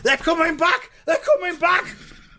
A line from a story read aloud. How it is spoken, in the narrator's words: the roly-poly bird came swooping in, screaming